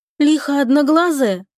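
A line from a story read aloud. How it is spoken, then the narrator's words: Sad clarification. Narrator (Russian): печально уточнил Искин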